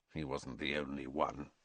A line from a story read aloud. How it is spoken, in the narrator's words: said Sirius bitterly